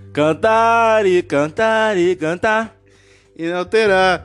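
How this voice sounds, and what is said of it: Imitates another person's voice. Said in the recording (Portuguese): “Tô imitando Bolsonaro agora.”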